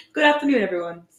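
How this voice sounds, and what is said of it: Put-on British accent. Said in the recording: “did it a little of an accent today ... It's like my British accent.”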